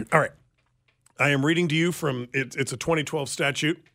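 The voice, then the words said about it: Formal, official-sounding reading voice. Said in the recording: “in a very official voice.”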